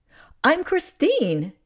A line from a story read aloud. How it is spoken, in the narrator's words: she said brightly